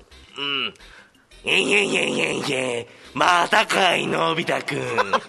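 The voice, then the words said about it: Imitates a cartoon character's voice. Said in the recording (Japanese): “ドラえもん”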